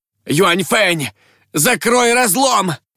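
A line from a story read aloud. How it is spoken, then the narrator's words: Exhausted shout. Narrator (Russian): Из последних сил прокричал Шуй Сяолун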